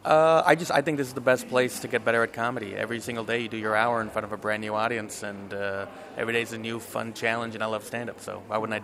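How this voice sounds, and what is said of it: American accent. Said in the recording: “That's a really good American accent”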